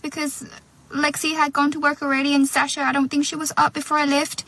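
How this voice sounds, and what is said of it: Speaks with an Irish accent. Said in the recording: “all of a sudden I was talking in an Irish accent ... I just did a job interview in an Irish accent”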